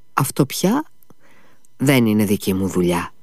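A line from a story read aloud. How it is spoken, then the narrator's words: Smiling. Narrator (Greek): χαμογέλασε ο γιατρός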